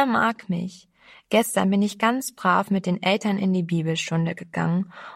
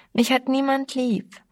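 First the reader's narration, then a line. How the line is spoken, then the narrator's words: Wailed. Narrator (German): jammerte sie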